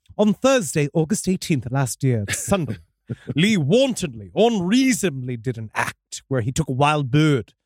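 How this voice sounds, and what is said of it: Put-on British accent. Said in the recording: “If you do it in British accent”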